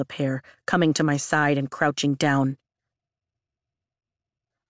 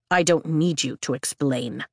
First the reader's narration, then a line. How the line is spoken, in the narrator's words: Dane snarls